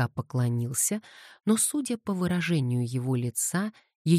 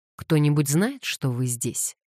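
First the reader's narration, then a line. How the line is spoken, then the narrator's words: Sharp question. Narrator (Russian): резко спросил он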